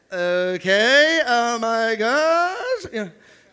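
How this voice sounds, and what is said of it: Valley Girl voice. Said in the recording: “That's my Valley Girl voice right there.”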